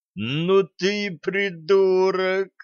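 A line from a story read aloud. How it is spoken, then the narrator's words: Exasperated groan. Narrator (Russian): не выдержав, простонал Греф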